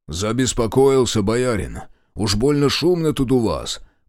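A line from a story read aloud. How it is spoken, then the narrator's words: Deep bass voice. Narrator (Russian): пробасил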